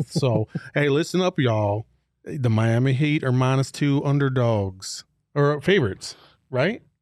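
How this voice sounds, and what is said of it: Slow put-on Southern accent. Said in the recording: “Southern accent... you gotta talk like molasses are coming out your mouth”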